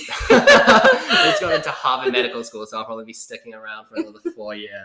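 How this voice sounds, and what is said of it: New Zealand accent. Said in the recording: “as you can probably tell from my accent, I'm from New Zealand. ... someone with a really cool accent”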